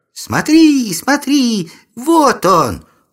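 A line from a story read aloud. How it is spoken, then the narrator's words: Joyful yell. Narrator (Russian): Радостно завопила одна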